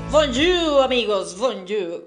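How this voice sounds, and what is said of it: Imperfect put-on French accent. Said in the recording (Spanish): “intenté hacer el acento francés más parecido a lo real, pero pues evidentemente soy mexa de corazón, así que se aprecia”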